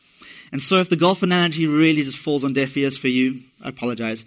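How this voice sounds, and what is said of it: South African accent. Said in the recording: “I'm from South Africa, hence the non-Canadian accent”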